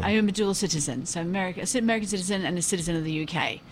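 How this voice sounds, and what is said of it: Posh English accent. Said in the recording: “you have this very posh English accent”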